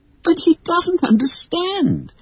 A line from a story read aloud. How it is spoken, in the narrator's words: said Wendy tearfully